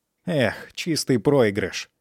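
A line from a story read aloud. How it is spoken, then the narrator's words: Annoyed boy grumbling. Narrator (Russian): проворчал раздосадованный мальчик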